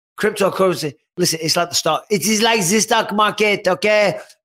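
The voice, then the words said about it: George St. Pierre accent impression. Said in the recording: “George St. Pierre just based on the accent”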